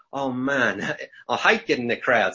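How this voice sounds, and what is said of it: Imitates another person's accent. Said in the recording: “I shouldn't do the accent”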